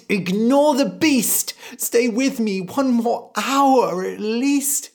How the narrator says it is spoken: The mother cried

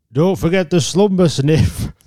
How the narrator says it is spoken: Theodore bellowed after them

